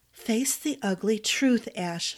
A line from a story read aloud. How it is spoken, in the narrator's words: she whispered